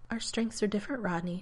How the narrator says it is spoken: Taylor told him gently

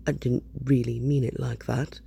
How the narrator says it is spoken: mumbles Richard

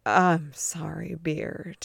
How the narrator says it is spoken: he mutters, ashamed of himself

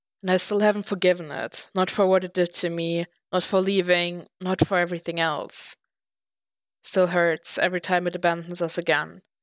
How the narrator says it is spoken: Clint sighed

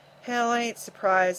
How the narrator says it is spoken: the opera house owner said bitterly

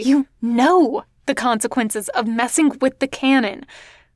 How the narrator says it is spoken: Gwen hisses, frustrated

